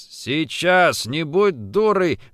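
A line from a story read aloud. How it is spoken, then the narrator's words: Rough male voice. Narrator (Russian): грубо сказал первый мужчина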